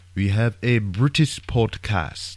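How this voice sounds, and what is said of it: Bad fake British accent. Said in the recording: “That was a bad British accent.”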